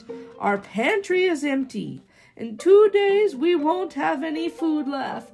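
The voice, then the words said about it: Shrill voice with a thick accent. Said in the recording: “shrieked the cook in a thick accent.”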